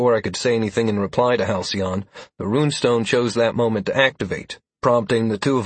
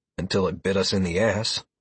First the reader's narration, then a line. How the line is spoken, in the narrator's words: I grunted